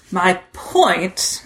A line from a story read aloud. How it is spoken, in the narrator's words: Jack growled